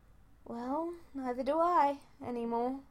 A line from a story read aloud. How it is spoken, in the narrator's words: Subaru said gloomily